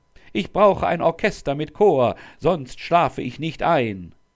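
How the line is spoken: Calling down. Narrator (German): rief runter

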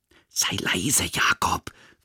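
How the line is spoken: Whispered. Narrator (German): flüstert Julian

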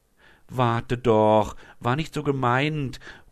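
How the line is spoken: Calling after someone. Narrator (German): ruft Leonie ihr nach

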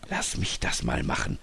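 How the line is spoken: Whispered. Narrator (German): flüsterte Robert

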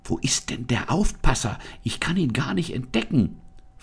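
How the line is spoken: Whispered. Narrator (German): flüsterte Anne

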